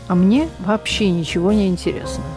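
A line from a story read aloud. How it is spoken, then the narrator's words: Calm. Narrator (Russian): директор спокойно сказал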